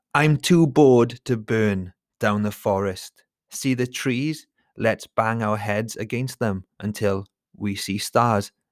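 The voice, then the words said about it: Dramatic poetry reading voice. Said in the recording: “I'm going to try and do a poetry reading voice.”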